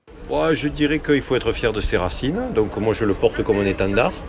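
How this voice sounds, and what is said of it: Southern French accent. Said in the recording (French): “l'accent que j'ai ... quand vous avez l'accent du Sud”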